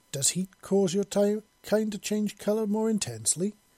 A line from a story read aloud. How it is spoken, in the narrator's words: she asked in an innocently curious tone